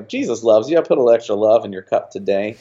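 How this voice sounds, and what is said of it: Put-on Texan accent. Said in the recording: “with a Texan accent and everything.”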